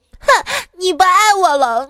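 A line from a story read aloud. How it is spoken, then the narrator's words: Sobbing girlfriend. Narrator (Chinese): 女朋友哭哭啼啼的说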